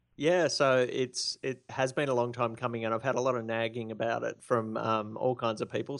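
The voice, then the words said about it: Australian accent. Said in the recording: “you have one of the best voices that I absolutely love to listen to ... that Aussie accent”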